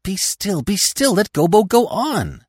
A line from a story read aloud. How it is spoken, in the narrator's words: the others cried out at once